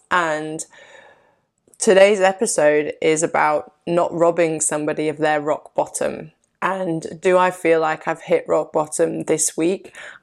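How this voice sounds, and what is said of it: Sick-sounding voice. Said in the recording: “this illness, which you can probably still hear in my voice”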